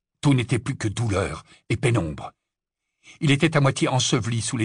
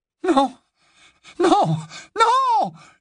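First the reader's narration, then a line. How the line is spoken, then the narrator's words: Yell. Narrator (French): hurla quelqu'un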